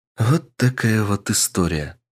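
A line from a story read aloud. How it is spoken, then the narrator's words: Sad smile. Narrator (Russian): грустно улыбнувшись, произнесла леди Винтер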